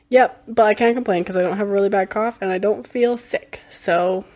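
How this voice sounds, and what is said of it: Hoarse, fading voice. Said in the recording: “I've been losing my voice for a whole week”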